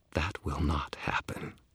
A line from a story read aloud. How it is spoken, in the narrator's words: Kyle said, his voice deadly quiet